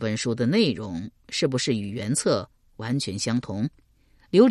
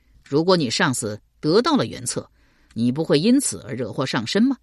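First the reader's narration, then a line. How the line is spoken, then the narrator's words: Plain. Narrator (Chinese): 邓毅道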